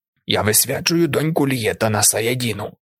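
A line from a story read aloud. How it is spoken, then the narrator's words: Old woman's rasp. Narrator (Ukrainian): прохрипіла стара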